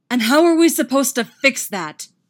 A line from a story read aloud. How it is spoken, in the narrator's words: Derek roars right in his face